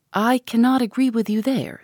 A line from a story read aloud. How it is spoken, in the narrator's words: said Eleanor